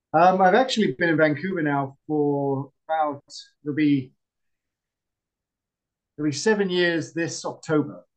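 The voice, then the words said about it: British accent. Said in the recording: “you can probably tell by the accent, I was a UK citizen”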